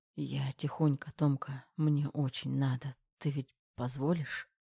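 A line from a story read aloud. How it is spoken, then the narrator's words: Broken whisper. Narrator (Russian): прерывисто шептал Кир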